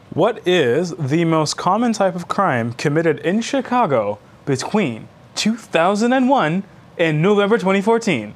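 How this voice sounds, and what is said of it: Game show host voice. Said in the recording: “I had to do that in the game show voice. ... I feel like we're on Jeopardy.”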